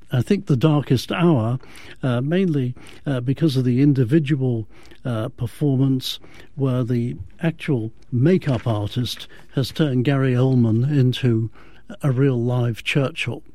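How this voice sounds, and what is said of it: British accent. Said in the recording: “I hate to say it in a British accent”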